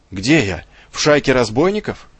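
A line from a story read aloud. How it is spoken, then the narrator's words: Angry exclamation. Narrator (Russian): воскликнул гневно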